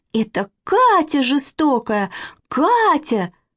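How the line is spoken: Shouting. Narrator (Russian): сразу закричала Манечка

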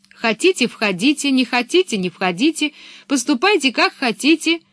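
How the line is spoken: Shout. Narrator (Russian): крикнула она

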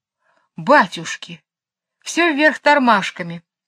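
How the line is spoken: Exclaiming. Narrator (Russian): воскликнул Джейн

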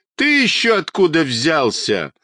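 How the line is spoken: Boy laughing loudly. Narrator (Russian): захохотал мальчишка

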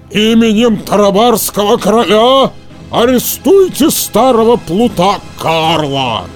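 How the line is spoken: Roaring voice. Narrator (Russian): голос Карабаса-Барабаса проревел

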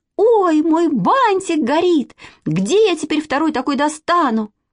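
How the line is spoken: Girl's alarmed shout. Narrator (Russian): девочки Зюзи Николаевой искра вскочила на бантик, и она как закричит

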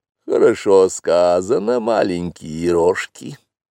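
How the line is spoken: Purr. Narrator (Russian): промурлыкала Багира

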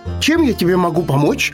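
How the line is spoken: Shouted right into ear. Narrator (Russian): в самое ухо тетереву крикнул заяц

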